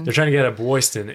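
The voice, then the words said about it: Put-on Boston accent. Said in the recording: “Boston. How do you say it with the accent?”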